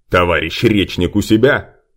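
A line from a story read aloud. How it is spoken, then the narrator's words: Loud question. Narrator (Russian): громко спросил черный эльф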